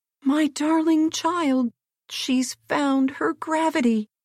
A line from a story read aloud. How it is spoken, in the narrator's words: her old nurse uttered a yell of delight and ran to her screaming